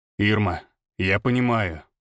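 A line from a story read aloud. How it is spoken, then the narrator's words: Cold male voice. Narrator (Russian): сказал он холодно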